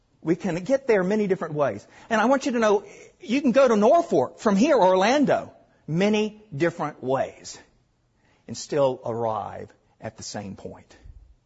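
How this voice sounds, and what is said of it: Southern US accent. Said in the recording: “You can tell my southern accent.”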